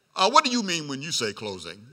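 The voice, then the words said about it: Put-on deep voice. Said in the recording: “got back in my deep voice. You don't know, you're just talking that deep voice.”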